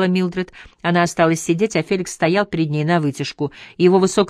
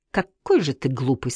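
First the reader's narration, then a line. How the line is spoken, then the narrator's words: Quiet. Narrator (Russian): сказала она тихо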